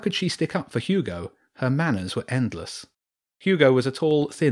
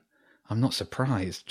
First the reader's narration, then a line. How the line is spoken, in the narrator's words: James muttered